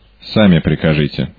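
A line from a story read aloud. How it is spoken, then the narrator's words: Cold. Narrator (Russian): ответил Макомбер холодно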